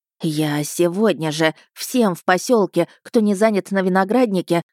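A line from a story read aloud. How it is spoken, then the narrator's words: Breathless exhale. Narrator (Russian): выдохнула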